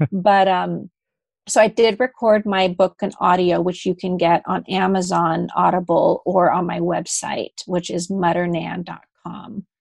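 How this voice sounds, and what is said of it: American accent. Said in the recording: “I lived in the States, and that's why I have this nice American accent”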